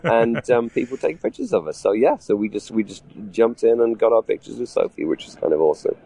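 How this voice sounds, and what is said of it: Usual voice. Nothing is said of it.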